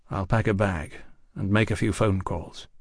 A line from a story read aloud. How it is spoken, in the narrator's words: he said quietly